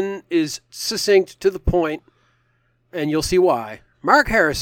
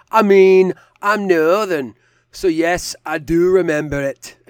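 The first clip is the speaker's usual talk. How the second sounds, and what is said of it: Put-on Northern English accent. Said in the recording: “if I was to try to interpret that ... that perfect Northern accent”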